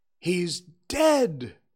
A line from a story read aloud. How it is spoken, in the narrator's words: cried several voices